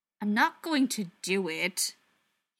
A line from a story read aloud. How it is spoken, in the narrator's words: he said irritably